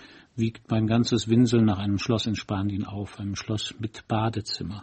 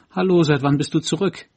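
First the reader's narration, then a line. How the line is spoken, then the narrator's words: Called out. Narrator (German): rief sie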